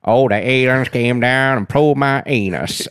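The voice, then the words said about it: Exaggerated hillbilly voice. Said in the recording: “that's my hillbilly impression.”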